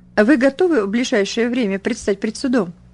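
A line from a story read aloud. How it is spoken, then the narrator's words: Casual everyday voice. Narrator (Russian): будничным голосом осведомился он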